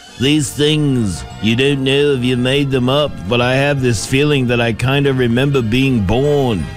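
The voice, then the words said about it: Poor imitation of another person's voice. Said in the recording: “That's a bad Paul McCartney impression.”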